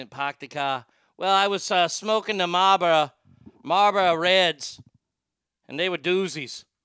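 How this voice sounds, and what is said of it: Put-on Boston accent. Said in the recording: “Let me get the Boston accent.”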